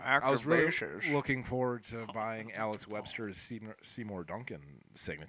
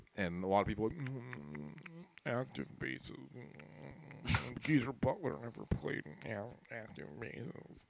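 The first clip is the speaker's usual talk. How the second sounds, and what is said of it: Mocking music critic voice. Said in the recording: “music critic impersonation”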